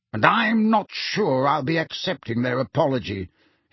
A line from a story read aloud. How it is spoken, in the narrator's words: he added bitterly